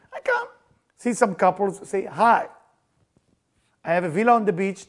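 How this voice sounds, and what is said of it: Non-native foreign accent. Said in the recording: “something's wrong with my accent”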